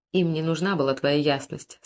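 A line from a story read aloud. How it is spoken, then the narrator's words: Plain. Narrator (Russian): сказал Бог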